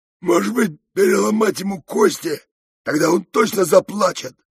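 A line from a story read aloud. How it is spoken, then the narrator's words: Hoarse rasp of raging bull. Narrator (Russian): прохрипел бешеный бык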